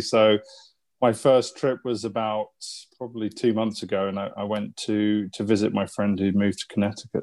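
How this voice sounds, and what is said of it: Mid-Atlantic English accent. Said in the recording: “I detect a little bit of an accent ... It's mid-Atlantic, I think they call it these days”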